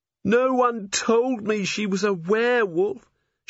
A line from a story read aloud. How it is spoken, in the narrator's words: Cherie moaned